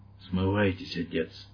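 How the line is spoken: Barely audible whisper. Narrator (Russian): Еле слышный голос прошептал по-английски в ухо священника

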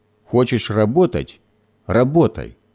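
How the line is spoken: Angry grumble. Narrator (Russian): сердито проворчал Гоша

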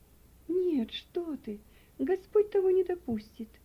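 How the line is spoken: Pale, exclaiming. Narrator (Russian): воскликнула мать, побледнев еще больше

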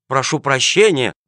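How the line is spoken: Guilty mumbling. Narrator (Russian): бормотал провинившийся

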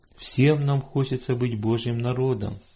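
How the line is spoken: Plain. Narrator (Russian): сказал папа

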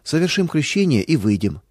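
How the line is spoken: Calm. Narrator (Russian): спокойно сказал он

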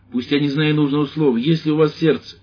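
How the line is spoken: Shouting. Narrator (Russian): крикнул

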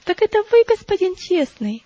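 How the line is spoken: Exclamation. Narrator (Russian): воскликнула Христиана

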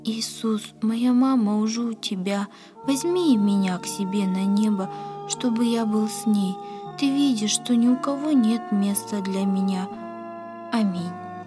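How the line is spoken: Sighing whisper. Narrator (Russian): вздохнул и, встав на колени, прошептал

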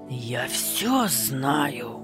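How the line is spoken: Angry hiss, suppressed. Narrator (Russian): Злобно шипела она, не осмеливаясь громко кричать в передней

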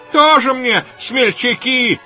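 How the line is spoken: Shout. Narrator (Russian): кричал другой

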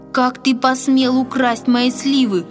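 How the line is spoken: Shouting, trembling with rage. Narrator (Russian): дрожа от гнева, закричал он

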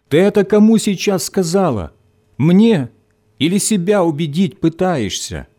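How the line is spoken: Shout after someone leaving. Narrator (Russian): крикнул Виктор в спину забежавшей в подъезд девушки

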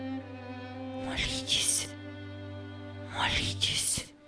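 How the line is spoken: Barely audible whisper. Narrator (Russian): Он еле слышно прошептал

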